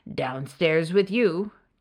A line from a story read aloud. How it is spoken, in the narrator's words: Death thundered